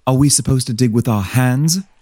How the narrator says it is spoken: Leigh spat

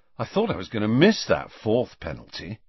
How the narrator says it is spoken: Ron was saying happily

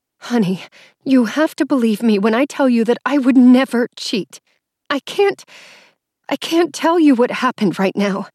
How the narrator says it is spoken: said, placing a hand over her mouth to stop a whimper

